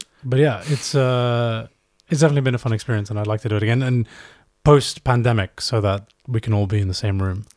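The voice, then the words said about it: Slightly hoarse voice. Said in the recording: “I've been talking all day, so I'm a little bit hoarse. That probably shows.”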